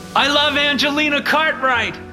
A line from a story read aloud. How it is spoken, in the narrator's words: Mitchell shouted again